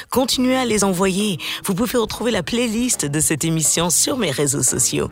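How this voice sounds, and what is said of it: French with American accent. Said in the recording (French): “mon accent américain qui s'intensifie depuis que je suis aux États-Unis”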